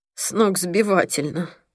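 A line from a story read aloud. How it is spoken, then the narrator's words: Groaning. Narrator (Russian): простонал Пол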